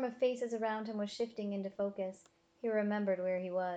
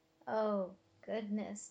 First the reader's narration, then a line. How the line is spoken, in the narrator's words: Tobin muttered